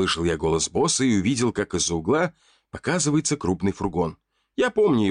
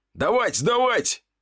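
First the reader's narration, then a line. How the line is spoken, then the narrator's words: Shouting. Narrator (Russian): кричал он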